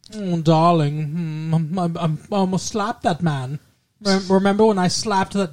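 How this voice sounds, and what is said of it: Poor imitation of Hungarian accent. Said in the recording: “That does not like her at all, but remember, because she's Hungarian”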